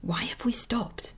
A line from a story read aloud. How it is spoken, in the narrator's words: Stick whispered into one of Fangtooth's ears